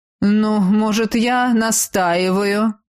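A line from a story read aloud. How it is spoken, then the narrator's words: Mocking question. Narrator (Russian): Насмешливо вопросил у потолка противный тощий тип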